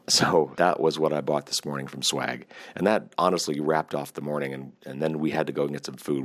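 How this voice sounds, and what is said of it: Voice starting to wear out. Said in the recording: “you can already, I'm sure, hear my voice is just starting to go”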